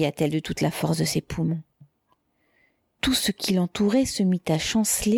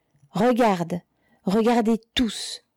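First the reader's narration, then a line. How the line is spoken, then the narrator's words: Exclaimed. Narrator (French): s'écria-t-elle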